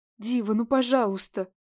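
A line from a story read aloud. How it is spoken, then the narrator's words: Pleading. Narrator (Russian): Взмолилась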